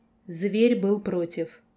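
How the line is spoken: Cold explanation, man. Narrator (Russian): холодно пояснил мужчина

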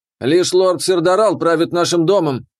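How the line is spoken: Indignant. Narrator (Russian): вновь возмущенно сказал Галак

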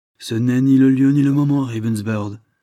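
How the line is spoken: Decisive tone. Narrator (French): fit Lord Dane d'un ton décisif

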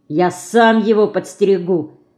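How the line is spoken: Angry. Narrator (Russian): сердито блеснув глазами, сказал Ленька

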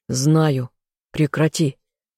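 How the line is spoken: Sharp growl. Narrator (Russian): рыкнул я

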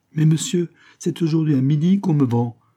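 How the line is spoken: Petitioner exclaiming. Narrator (French): s'exclama le solliciteur

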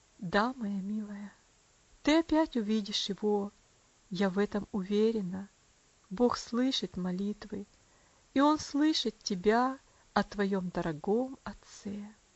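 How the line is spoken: Quiet, tender voice. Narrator (Russian): тихим, нежным голосом миссис Травилла сказал

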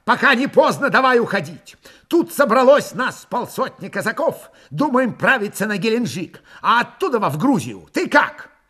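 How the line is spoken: Shouted from afar. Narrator (Russian): еще издали закричал

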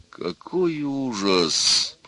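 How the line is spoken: Groaning. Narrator (Russian): простонал отец жениха

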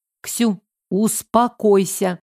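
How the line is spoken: Serious tone. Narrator (Russian): серьезным тоном сказала

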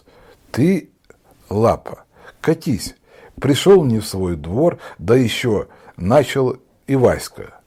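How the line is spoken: Timid. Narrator (Russian): Мишка и робко произнес

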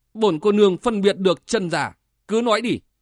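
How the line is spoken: Stern young woman. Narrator (Vietnamese): Thiếu nữ áo trắng nghiêm giọng

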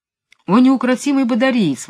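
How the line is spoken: Exclamation. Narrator (Russian): воскликнул

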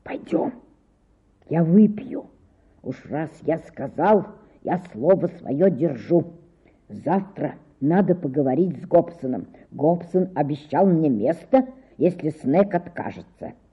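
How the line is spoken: Whisper after a pause. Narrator (Russian): Клисон помолчал, затем шепнул

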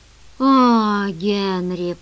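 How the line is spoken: Moan. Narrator (Russian): простонал

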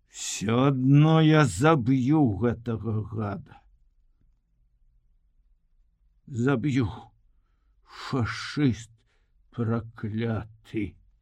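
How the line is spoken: Angry groan through gritted teeth. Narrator (Belarusian): зноў застагнаў, скрыгатнуў зубамі і сказаў злосна

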